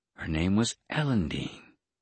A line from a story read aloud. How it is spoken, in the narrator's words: my talent whispered